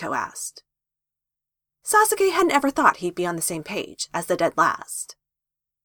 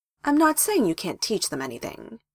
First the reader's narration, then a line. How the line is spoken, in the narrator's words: Hiruzen said in a reasonable voice